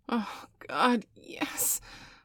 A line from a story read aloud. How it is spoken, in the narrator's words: Bailey gasped